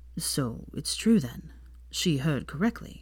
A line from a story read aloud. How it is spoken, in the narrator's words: wearing a pained expression as he asked weakly